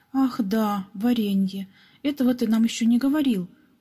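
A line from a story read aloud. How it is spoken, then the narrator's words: Exclaimed. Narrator (Russian): воскликнул Пепс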